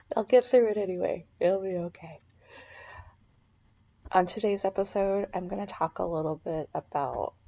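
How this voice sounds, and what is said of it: Slightly raspy voice. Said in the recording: “excuse my voice. It's I'm kind of a little bit raspy”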